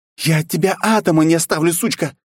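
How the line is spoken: Exclaiming princess. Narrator (Russian): воскликнула княжна

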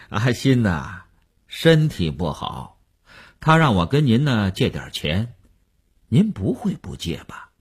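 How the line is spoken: Chuckling, blunt, over phone. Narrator (Chinese): 那个人在电话里嘿嘿地笑了，直截了当地说

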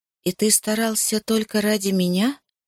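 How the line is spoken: Innocent voice. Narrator (Russian): спросила невинным голосом

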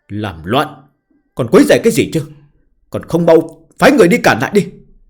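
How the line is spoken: Angry shout. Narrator (Vietnamese): sắc mặt Hạo Vân Đồ đen kịt lại, hét nói

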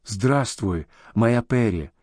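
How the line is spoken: Quiet whisper in ear. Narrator (Russian): тихо шепнул он в изящное ушко

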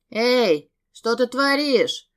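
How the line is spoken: Young man shouting. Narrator (Russian): закричал парень

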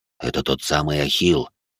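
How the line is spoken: Hissed close to ear. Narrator (Russian): наклонившись к уху коллеги, прошипел хобот

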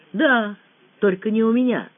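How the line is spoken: Calm explanation. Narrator (Russian): спокойно пояснила Лена

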